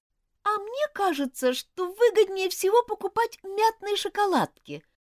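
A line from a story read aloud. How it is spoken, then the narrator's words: Sudden thin-voiced declaration. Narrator (Russian): вдруг тонким голоском заявила Розмари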